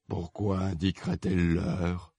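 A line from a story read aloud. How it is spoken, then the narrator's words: Murmuring. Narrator (French): murmura le chapelier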